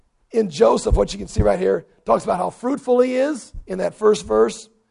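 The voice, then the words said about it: Hoarse, strained, fading voice. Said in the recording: “I'm losing my voice here. I'm about done.”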